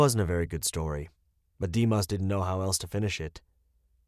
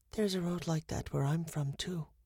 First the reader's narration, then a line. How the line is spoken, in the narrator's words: she whispered